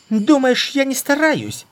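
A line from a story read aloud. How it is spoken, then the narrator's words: Shrieking. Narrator (Russian): Взвизгнула та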